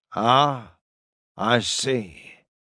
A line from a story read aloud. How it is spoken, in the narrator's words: Gredas murmured in Akreen's thoughts